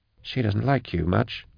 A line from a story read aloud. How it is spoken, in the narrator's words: Drusha whispered to Vorier